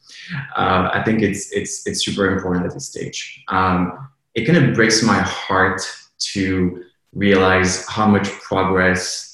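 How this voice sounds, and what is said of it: Noticeable accent. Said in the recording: “I'm sorry, accent.”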